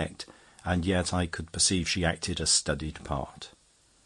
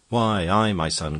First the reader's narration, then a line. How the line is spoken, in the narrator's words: cried I